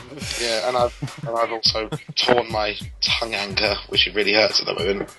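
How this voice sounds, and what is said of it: Hoarse voice. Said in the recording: “I've got the most rotten chest infection at the moment, so you might hear my voice as a bit hoarse.”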